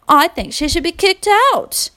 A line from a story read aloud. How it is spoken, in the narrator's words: blurted a younger child